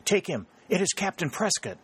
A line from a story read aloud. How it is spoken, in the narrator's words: she gasped